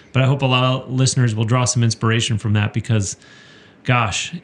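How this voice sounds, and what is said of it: Choked-up, emotional voice. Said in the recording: “I'm getting a little choked up,”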